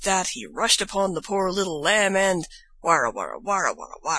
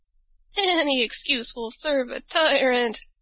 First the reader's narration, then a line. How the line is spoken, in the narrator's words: before she died, she gasped out